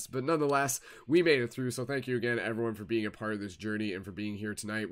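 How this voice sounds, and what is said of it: Tired, worn-out voice. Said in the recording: “you can literally tell like my voice is like needs to end and take a rest”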